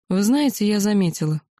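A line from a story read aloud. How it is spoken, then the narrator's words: Sarcastic reply. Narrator (Russian): язвительно ответила принцу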